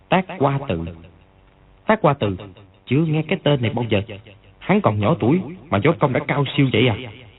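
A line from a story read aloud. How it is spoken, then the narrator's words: Old men muttering. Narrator (Vietnamese): Hai lão quá tử lẩm bẩm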